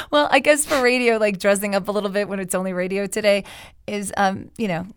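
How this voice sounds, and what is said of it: Slightly raspy voice. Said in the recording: “I still have this cough, so my voice is still a little raspy this week”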